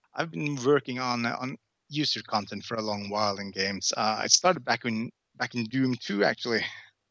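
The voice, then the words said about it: Norwegian accent. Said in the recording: “I'm Norwegian, so please excuse my accent.”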